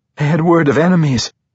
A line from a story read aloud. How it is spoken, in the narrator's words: Sarabel blurted